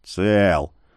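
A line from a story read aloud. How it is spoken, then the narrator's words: Gruff mutter. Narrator (Russian): буркнул ледорез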